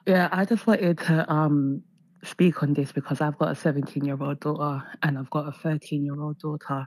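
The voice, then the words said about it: Rough, sick-sounding voice. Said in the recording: “my voice is really bad. I've got a bit of a cold.”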